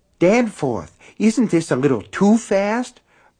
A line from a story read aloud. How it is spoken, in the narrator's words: Myrtle asked breathlessly